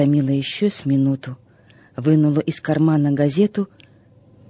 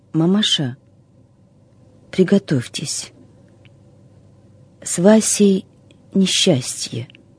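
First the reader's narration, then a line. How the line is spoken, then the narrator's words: Trembling voice. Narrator (Russian): вздохнула, побледнела и дрожащим голосом сказала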